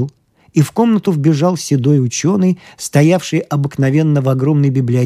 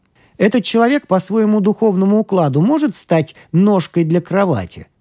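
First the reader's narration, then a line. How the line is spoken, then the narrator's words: Plain question. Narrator (Russian): спросил Икай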